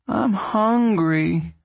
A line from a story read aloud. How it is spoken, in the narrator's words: Ruthie whined